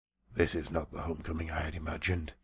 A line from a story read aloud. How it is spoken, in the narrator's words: Cloudrunner said softly